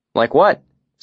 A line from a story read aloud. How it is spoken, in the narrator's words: Simon asked